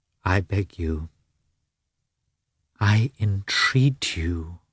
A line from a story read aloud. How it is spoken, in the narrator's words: said she suddenly, in quite an altered tone, sincerely and tenderly